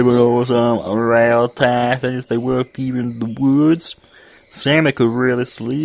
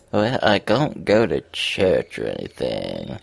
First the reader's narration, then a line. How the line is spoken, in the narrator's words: she sighed